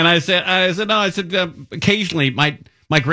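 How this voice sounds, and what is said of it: Usual voice. Nothing is said of it.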